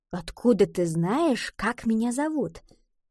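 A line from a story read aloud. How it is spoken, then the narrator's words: Conspiratorial whisper. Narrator (Russian): Гретхен заговорщицки прошептала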